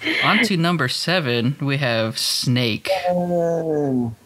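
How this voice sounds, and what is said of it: Usual voice. Nothing is said of it.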